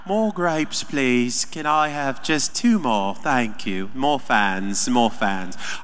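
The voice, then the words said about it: Weak put-on British accent. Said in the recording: “I think he has a British accent ... I'm not good at accents.”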